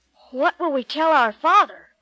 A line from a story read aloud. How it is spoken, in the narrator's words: he cried out